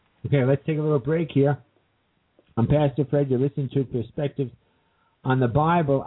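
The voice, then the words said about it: Strained, failing voice. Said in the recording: “You can tell my voice is giving out.”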